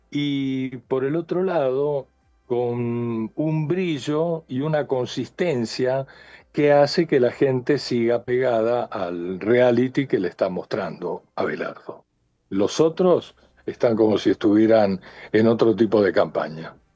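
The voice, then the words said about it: Argentine Spanish accent. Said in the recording (Spanish): “ese acento es una maravilla, no lo perdió jamás ... otro argentino”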